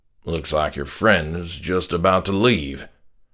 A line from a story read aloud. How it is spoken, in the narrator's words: my dad sneered over his shoulder